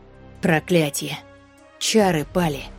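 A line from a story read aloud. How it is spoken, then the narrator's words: Muttered. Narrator (Russian): Пробормотала Мира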